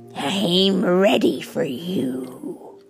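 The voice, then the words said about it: Gravelly old woman's voice. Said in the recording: “She said in a gravelly voice.”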